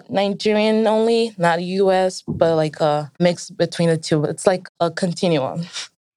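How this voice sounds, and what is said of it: American accent. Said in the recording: “speaking like this in my American accent”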